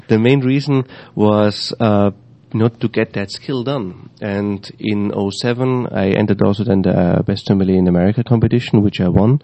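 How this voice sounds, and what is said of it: Slight foreign accent in English. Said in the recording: “get a little bit rid of my accent. But I figured Americans love accents, so I kept it still a little bit.”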